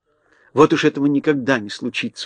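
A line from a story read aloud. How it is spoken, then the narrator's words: Convinced exclamation. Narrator (Russian): убежденно воскликнула Элли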